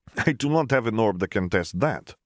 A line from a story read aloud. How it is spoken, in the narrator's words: he chuckled